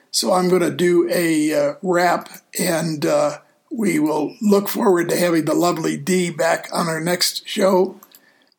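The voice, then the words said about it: Tired, worn-out voice. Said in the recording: “As you can tell by my voice, I'm running out of steam for this show”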